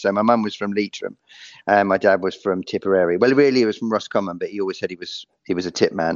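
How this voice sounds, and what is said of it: London accent. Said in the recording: “you can hear from my voice that I was born in London”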